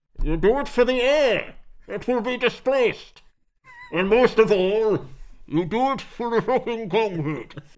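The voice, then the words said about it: Bane impression. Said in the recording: “if Bane was in Locke”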